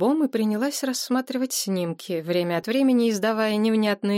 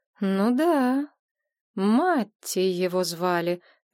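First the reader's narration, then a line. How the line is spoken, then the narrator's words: Drawn-out drawl. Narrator (Russian): протянула Надежда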